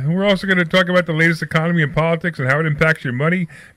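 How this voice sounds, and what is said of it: Brooklyn accent. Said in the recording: “Is it my accent? ... Yes, it's his accent. ... It's your accent. ... Brooklyn ... Accent.”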